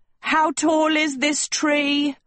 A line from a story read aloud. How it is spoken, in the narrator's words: Agatha shrieked